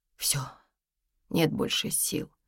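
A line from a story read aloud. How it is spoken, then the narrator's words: Quiet. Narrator (Russian): тихо сказала Тома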